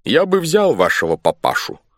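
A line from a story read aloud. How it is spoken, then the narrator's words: Stern. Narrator (Russian): строго сказал капитан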